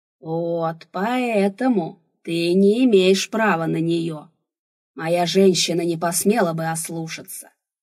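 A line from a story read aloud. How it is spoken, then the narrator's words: Roaring. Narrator (Russian): взревел Рурк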